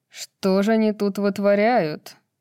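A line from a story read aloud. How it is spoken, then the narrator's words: Snide question, hawk. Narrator (Russian): ехидно спросил ястреб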